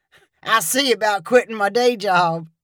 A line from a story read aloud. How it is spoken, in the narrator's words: He chuckled and said